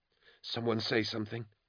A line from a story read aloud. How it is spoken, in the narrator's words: Plighton whispered